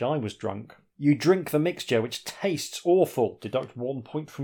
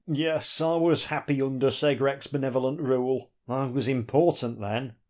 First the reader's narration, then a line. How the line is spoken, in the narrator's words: the elf sighs